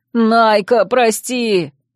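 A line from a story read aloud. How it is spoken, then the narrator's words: Anguished howl. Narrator (Russian): взвыл Вемод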